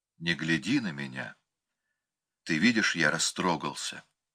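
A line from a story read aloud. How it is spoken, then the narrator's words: Quiet talk. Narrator (Russian): тихо беседовал Копенкин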